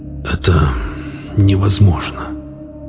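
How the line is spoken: Hoarse rasp. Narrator (Russian): прохрипел я

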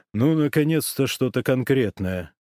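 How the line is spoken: Grumbling. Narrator (Russian): проворчал Ковальчук

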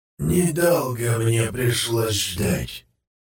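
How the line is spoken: Creaky voice from behind. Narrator (Russian): проскрипело позади

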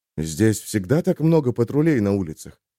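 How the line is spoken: Whispered question. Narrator (Russian): шепотом поинтересовался Олег

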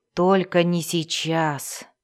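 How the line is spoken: Groaned. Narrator (Russian): простонал Вульфгар

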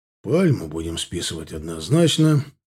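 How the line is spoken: Sigh. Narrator (Russian): вздохнул Таран

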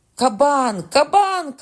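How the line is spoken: Shouted. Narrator (Ukrainian): крикнув Карл

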